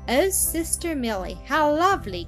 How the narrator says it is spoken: cried Zillah

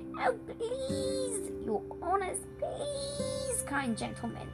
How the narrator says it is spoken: whimpered the gnome

